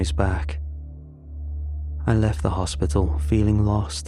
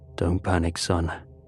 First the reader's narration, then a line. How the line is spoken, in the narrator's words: he said in a calming tone